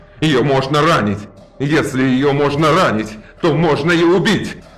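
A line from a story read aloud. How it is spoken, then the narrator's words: Howling. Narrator (Russian): Взвыл Дюнкель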